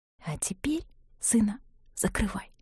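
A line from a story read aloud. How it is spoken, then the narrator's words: Whisper. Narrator (Russian): Нина сказала шепотом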